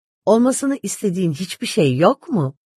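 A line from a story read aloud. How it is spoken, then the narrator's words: Half serious, half laughing. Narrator (Turkish): yarı ciddi, yarı gülerek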